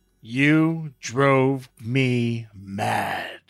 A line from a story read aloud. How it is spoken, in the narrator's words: he growled, and the sound trembled down my neck